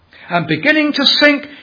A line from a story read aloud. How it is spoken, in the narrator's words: he cried saying